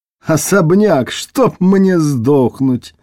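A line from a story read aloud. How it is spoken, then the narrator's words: Dreadful mournful laughter. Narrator (Russian): Он продолжал смеяться своим страшным скорбным хохотом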